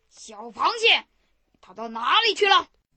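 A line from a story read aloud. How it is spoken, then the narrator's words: Tiger calling out. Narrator (Chinese): 老虎不见了螃蟹，喊道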